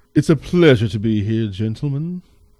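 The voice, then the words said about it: Put-on accent. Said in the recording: “Last time I'll do the accent for the entire thing, I swear.”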